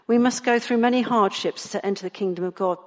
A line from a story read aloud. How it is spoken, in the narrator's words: they said